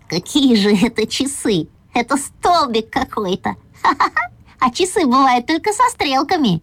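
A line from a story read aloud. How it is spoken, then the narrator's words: Quiet laughing. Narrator (Russian): засмеялся тихонечко и говорю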